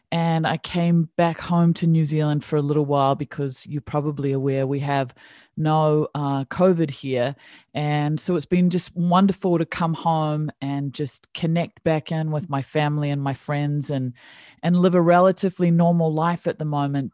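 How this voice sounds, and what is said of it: New Zealand accent. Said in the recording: “I am down in New Zealand. As you can tell, I have this funky little accent”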